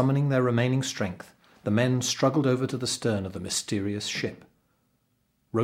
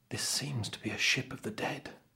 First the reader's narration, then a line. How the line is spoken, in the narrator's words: said the servant quietly